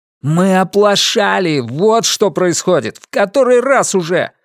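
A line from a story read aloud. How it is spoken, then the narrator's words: Sudden passionate outcry. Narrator (Russian): вдруг пылко выкрикнул Ренар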